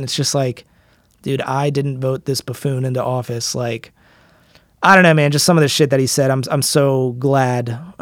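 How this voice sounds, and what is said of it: American accent. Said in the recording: “my accent, an American accent”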